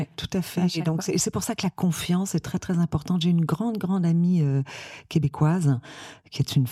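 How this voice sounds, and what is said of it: Usual voice. Nothing is said of it.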